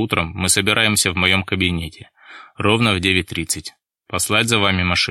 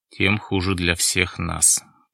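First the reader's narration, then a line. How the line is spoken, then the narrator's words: Muttered. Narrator (Russian): пробормотал Шаповалов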